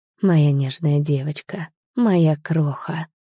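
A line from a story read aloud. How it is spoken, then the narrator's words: Smiling whisper in ear. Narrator (Russian): шептал ей на ухо, улыбаясь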